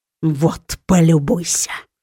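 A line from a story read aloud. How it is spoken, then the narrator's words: Irritated hiss. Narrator (Russian): Прошипел сокол, раздраженно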